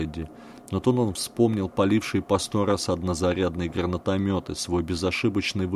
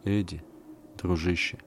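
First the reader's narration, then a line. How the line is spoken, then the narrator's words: Quiet, bespectacled man. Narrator (Russian): тихо сказал очкарик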